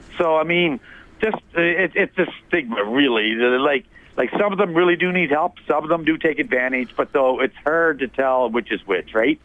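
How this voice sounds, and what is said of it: Canadian Maritime accent with twang. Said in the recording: “I love the way you said hard. That is a very maritime twang to your accent there.”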